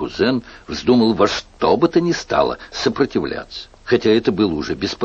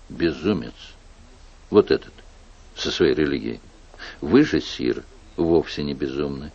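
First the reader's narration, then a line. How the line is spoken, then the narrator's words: Firm whisper. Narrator (Russian): прошептал твердо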